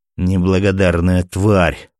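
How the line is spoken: Through gritted teeth. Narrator (Russian): процедил сквозь зубы оперативник

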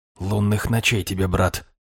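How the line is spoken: Whisper. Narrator (Russian): прошептал я

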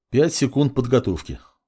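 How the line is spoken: Calm. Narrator (Russian): спокойно произнес маг

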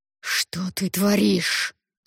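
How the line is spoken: Angry hiss. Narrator (Russian): зашипел он с искаженным от злости лицом

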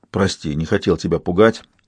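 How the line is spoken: Plain. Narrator (Russian): сказал я

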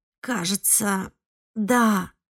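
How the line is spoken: Hoarse wheeze. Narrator (Russian): прохрипела Эвелин

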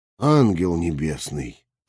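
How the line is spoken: Muttered. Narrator (Russian): пробормотал я

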